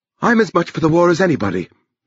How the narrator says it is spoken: said sharply

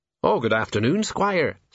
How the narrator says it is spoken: said Sergeant Colon brightly

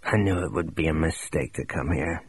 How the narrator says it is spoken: he mumbled

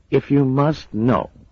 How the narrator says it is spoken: he said, a trifle testily

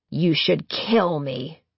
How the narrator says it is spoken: Firi Dunra growls

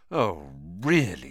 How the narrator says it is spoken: she spluttered, going rather red

